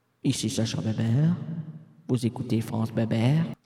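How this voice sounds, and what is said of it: Suave radio host voice. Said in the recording (French): “Macha la dérangère ... Elle disait, avec sa voix suave”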